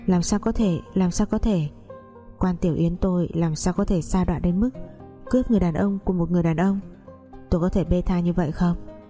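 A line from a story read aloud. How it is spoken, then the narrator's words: Trembling rueful laugh. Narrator (Vietnamese): Tôi khẽ run cười than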